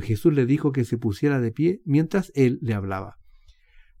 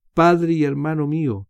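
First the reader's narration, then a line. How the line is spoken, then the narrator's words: Exclaimed. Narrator (Spanish): exclamando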